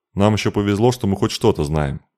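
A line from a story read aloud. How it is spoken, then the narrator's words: Grumbling. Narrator (Russian): проворчал посох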